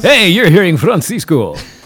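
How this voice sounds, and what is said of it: Announcer-style radio voice. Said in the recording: “used a radio voice”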